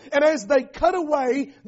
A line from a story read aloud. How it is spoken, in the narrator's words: the prophet pleads with a question